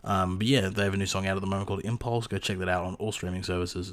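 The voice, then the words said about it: Hoarse, congested voice from a cold. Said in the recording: “I have a little bit of a cold ... my throat's kind of fucked”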